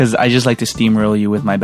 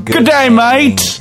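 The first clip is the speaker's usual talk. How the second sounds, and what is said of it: Bad put-on Australian accent. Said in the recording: “Australian ... my bad accents”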